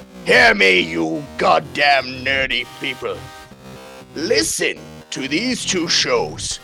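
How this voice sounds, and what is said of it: Klingon general character voice. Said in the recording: “my Klingon voice ... I do a good Klingon general.”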